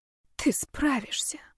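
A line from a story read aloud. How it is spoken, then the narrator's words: Whispered. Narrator (Russian): шепнула я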